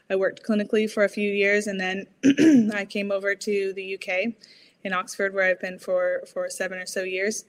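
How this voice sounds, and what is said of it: American accent. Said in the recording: “as you can tell from my accent, didn't grow up here... I grew up in California”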